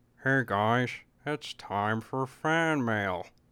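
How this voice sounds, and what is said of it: Harry Plinkett character voice. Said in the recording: “I don't know why I keep doing that voice. I think that's a little bit of Harry Plinkett in there.”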